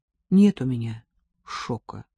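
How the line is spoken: Calm reply. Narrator (Russian): ответила я спокойно

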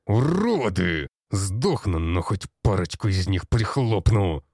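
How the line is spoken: Growled. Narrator (Russian): прорычал Петрович

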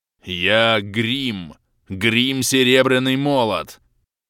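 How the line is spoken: Giant roaring. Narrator (Russian): прорычал гигант

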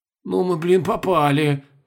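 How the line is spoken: Breathless exhale. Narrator (Russian): выдохнул Колобков

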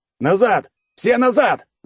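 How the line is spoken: Yelling. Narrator (Russian): заорал Павел

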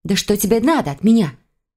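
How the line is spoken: Exclaimed. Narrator (Russian): воскликнула

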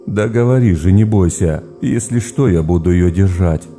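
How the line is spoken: Laughing, older boy. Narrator (Russian): смеялся Олег, парень старший

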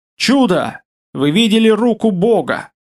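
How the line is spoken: Shouted exclamation. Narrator (Russian): выкрикнул он

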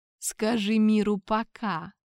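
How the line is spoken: Hoarse rasp. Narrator (Russian): прохрипел я

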